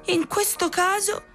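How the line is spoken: Proud shout. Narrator (Italian): gridò fieramente Pinocchio

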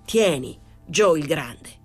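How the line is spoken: Exclaiming. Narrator (Italian): esclamò

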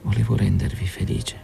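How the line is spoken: Despairing, head lowered. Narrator (Italian): con un'aria di disperazione … disse abbassando la testa

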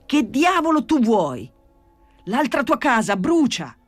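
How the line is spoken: Shouted. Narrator (Italian): gridò Gesù Maria

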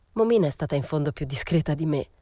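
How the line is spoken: Muttered. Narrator (Italian): borbottai

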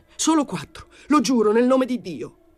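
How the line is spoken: Shouted. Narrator (Italian): Gio gridò

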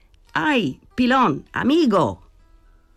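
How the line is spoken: Shouting. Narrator (Italian): Gridò

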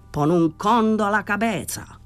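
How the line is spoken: Furious shout. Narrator (Italian): Danny era furibondo, gridò

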